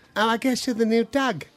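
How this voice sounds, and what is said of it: Put-on New Zealand accent. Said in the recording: “delightful ... New Zealand accent.”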